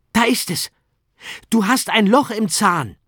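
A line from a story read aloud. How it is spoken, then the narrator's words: Called out. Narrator (German): rief er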